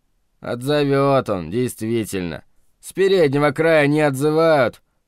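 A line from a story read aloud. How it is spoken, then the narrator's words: Grumbling. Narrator (Russian): проворчал Маримонов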